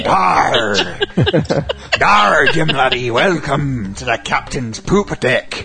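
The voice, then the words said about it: Exaggerated pirate voice. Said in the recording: “you sound like a horny pirate when you do that”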